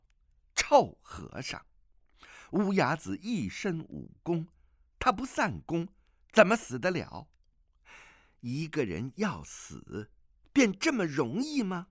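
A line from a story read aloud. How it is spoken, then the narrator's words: Grief turned angry cursing. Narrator (Chinese): 突然转悲为怒，骂道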